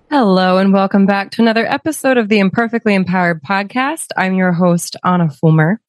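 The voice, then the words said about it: Hoarse, strained voice. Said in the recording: “As you can hear in my voice, I am recovering from laryngitis”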